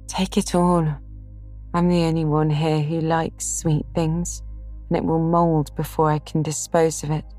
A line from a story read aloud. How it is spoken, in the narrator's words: answered Amy with a sigh